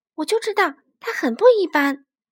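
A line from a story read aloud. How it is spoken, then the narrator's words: Exclaiming. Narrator (Chinese): 野兔叫道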